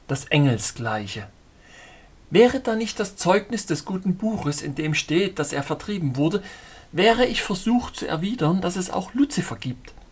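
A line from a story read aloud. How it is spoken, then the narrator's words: Blushing, laughing reply. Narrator (German): antwortete errötend und lachend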